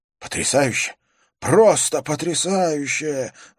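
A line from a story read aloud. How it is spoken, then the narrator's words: Exclamation. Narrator (Russian): воскликнул Язон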